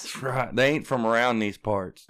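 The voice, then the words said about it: Put-on Southern US accent. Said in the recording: “Don't let the accent fool you. ... Get your southern pride right.”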